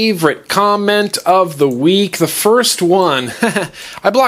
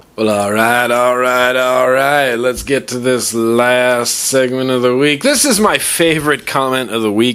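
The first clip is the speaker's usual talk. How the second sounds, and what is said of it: Imitates another person's voice. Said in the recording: “my Matthew McConaughey impression”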